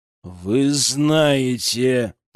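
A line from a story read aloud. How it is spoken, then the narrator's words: Growled. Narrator (Russian): прорычал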